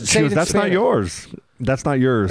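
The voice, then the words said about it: Put-on Mexican accent. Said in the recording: “is that your Mexican accent? ... Is that Italian? ... It's fucking Mexican.”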